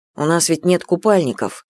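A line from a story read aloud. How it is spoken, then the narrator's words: Embarrassed mutter. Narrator (Russian): буркнул он, смутившись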